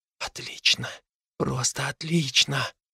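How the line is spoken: Whisper. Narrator (Russian): прошептал Фил

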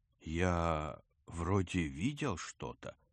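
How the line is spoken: Uncertain. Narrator (Russian): Грач неуверенно произнес

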